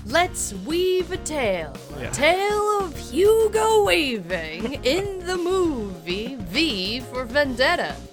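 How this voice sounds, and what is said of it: Unidentifiable put-on accent. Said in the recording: “I don't know what accent that was”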